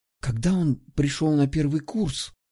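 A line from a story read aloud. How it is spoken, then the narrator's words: Conspiratorial whisper. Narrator (Russian): Продолжила, понизив голос до конспиративного шепота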